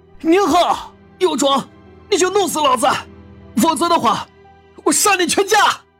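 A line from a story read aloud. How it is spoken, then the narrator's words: Frenzied wailing roar, clenched teeth. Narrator (Chinese): 王东双目猩红，疯狂的哀嚎起来，咬牙吼道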